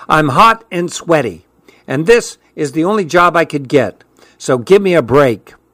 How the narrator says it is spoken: said in an irritated tone

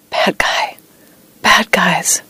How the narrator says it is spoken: thrashing in bed and whispering

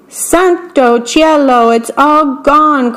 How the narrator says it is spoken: cried Big Anthony

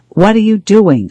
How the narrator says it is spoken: shouted

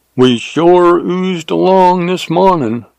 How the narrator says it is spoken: drawled Jim

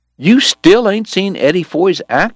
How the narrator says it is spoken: Morgan cried around a mouthful of deer meat

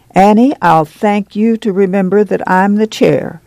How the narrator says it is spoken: Jessie Bullitt said sternly

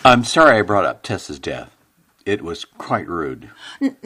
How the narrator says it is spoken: in a soft voice, Bruce said to Mercer

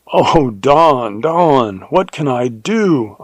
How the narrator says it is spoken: I cried in horror

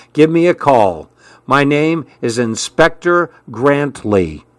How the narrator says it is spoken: he said firmly

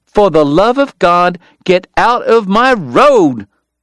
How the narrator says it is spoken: he rounded on Kate, shouting

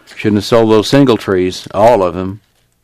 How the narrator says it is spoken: grumbled

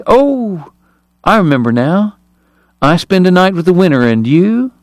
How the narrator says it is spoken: Kate purred

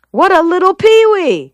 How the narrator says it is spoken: she shouted

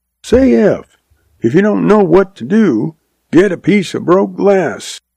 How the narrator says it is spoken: she hollered back

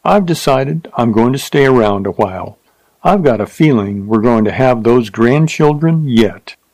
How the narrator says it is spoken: Foster chuckled

